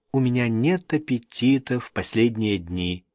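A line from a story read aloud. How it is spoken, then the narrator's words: Quiet. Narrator (Russian): тихо произнес Ковий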